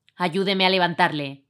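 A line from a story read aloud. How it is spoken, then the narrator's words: Plain. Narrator (Spanish): dijo el sereno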